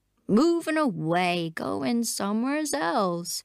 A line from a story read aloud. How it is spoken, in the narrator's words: he said, sadly